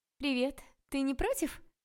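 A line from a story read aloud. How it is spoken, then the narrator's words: Shouted. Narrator (Russian): прокричала незнакомка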